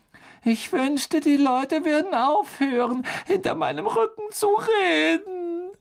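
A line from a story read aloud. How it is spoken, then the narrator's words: Tearful choked voice. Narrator (German): sagte Myrte mit tränenerstickter Stimme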